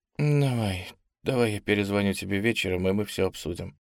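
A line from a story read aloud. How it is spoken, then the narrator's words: Mumbling. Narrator (Russian): промямлила она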